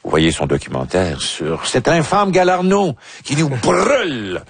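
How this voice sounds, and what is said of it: Strange put-on accent. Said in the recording (French): “c'est dit avec un accent étrange”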